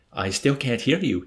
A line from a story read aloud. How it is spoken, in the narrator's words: he said